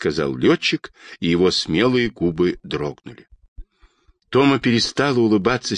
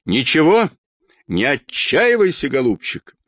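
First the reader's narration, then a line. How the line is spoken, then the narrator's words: Shouting. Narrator (Russian): закричала Анна Петровна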